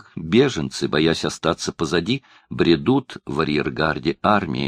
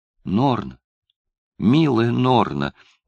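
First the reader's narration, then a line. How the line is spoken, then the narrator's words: Trembling voice. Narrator (Russian): дрожащим голосом произнесла Бренда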